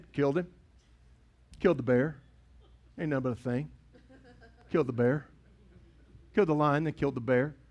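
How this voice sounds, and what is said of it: Accent coming through strongly. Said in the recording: “every once in a while that accent comes out, doesn't it?”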